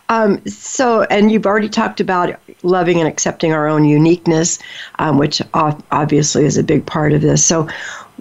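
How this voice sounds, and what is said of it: Choked-up, emotional voice. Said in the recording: “Sorry, I'm getting choked up here.”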